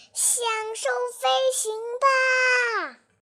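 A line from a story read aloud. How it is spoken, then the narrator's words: Loud shout. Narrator (Chinese): 小飞鱼回过头，大喊道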